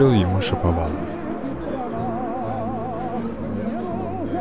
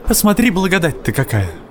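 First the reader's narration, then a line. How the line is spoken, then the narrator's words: Sudden exclamation. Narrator (Russian): неожиданно воскликнул Шаповалов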